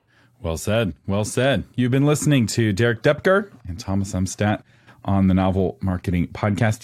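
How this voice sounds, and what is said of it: Voice altered by a cold. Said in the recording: “I'm fighting a cold. If my voice sounds a little bit different, that's why. Hopefully by next week, my voice will be back.”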